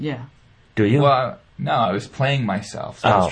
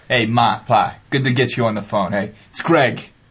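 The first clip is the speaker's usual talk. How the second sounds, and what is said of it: Put-on accent. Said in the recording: “in the accent?... I was trying to put an accent on”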